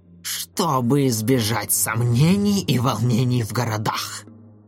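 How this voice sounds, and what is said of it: Rough mocking imitation of Claude. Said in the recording (Russian): “Тварь грубо передразнила Клода”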